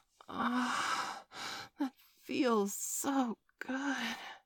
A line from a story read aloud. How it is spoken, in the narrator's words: she breathed